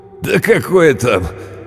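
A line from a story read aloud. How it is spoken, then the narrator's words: Laughing, male. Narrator (Russian): он рассмеялся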